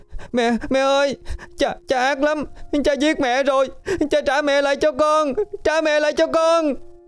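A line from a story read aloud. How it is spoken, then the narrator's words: Child wailing, sobbing. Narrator (Vietnamese): bé Xuyến gào khóc, trong tiếng nức nở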